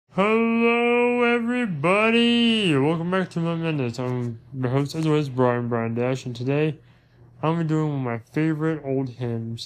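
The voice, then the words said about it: Worn-out, nearly gone voice. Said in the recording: “my voice is practically dead from tonight”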